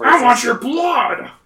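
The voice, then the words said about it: Imitates another person's voice. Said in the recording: “I'm trying to do my Gilbert Gottfried voice. I can't do Gilbert Gottfried.”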